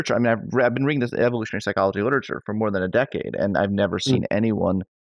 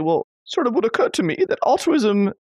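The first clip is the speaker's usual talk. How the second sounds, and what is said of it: Imitated posh British accent. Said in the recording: “I was trying to do your accent ... That sound like a posh Brit ... like a queen, you know, the queen mother”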